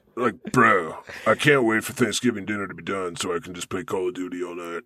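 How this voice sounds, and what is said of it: Put-on American bro accent. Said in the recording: “You have a good American accent. ... This is my bro voice.”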